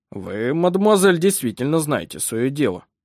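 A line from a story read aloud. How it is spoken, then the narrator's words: Grumbling. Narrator (Russian): проворчал он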